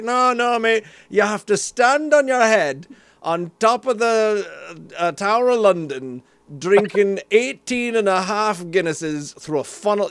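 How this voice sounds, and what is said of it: Put-on Scottish accent. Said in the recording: “This is your accent, trust me. This is exactly ... How you sound ... I'm straight Scottish ... you were in Scotland. You were very, very obviously ... I didn't mean to go full Scottish”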